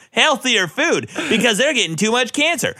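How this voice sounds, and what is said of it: Overly excited, fast imitation of another person. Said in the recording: “You gotta make it slower and like act like you know what you're talking about too. ... That was too excited.”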